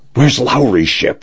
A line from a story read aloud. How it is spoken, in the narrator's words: Jackson panted